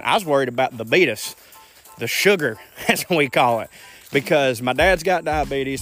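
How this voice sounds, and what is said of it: Noticeable regional accent. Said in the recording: “Y'all hear my accent.”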